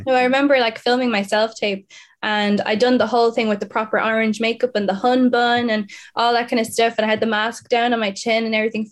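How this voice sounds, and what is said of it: Posh English accent. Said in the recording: “a lot of people would always consider me posh with my accent sometimes”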